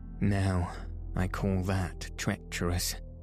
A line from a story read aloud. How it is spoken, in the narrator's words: said she